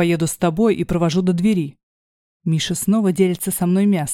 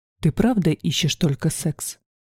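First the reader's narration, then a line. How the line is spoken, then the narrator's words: Quiet question. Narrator (Russian): спрашивает тихо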